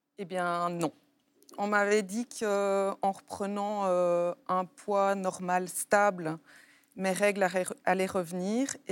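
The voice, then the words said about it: Slight Belgian French accent. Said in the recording (French): “vous ne viendrez pas un petit peu de Belgique, vous Je crois entendre poindre un petit accent qui m'est très familier”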